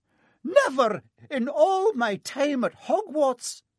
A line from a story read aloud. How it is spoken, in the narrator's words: Professor McGonagall was almost speechless with shock